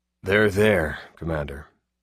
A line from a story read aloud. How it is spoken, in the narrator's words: Glass said softly